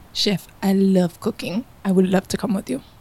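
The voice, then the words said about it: Fake unidentified put-on accent. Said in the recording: “I like that accent. I don't know what it is ... That accent's fake.”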